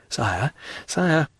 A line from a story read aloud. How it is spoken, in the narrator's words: murmured the minister